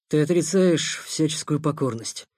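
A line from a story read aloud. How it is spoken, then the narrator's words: Tender, restrained mutter. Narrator (Russian): пробормотал Никита, борясь с желанием обнять Толю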